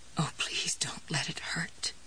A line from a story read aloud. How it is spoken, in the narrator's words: she said in a low, trembling voice